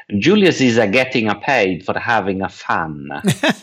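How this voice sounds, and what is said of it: Imitated rich Italian accent. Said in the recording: “with his rich Italian accent”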